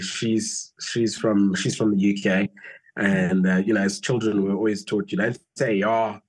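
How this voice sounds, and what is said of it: South African accent with British twang. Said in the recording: “South African ... you have a British twang also in your in your accent so you don't sound so south african”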